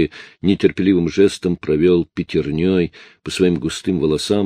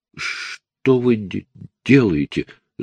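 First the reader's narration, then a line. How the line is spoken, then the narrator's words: Stammering female question. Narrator (Russian): заикаясь, спросила она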